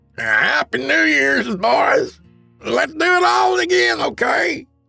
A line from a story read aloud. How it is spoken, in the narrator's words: he hollered to his waving buddies